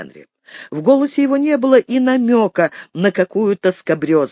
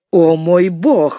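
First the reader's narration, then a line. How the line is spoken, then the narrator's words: Protesting exclamation. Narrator (Russian): воскликнула Нора, намереваясь выступить с протестом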